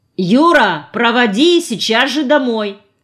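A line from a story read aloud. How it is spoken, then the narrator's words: Shouted after someone. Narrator (Russian): крикнула она ему вдогонку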